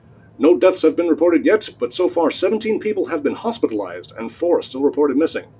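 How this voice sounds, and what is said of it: Newscaster voice. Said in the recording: “I love your newscaster voice”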